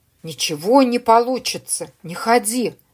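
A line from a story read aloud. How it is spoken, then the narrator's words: Eerie whisper. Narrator (Russian): каждая песчинка которого шептала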